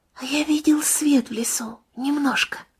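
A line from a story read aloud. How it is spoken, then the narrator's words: Whispered. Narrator (Russian): Сережа шепнул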